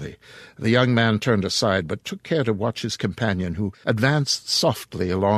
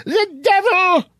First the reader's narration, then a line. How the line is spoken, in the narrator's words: screamed the pious old lady